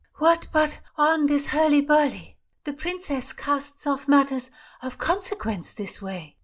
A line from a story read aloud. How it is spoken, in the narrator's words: Dorodai, who said breathlessly